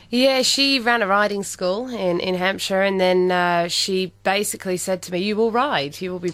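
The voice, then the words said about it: English accent. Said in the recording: “lovely accent,... she's a Pom and she was born in Hampshire”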